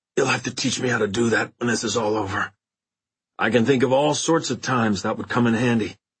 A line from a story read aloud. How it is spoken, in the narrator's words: said in a hoarse voice